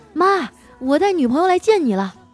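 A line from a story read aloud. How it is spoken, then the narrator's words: Excited shout. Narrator (Chinese): 他特别兴奋…就喊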